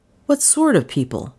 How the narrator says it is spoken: he queried sharply

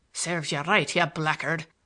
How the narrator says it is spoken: Larry muttered

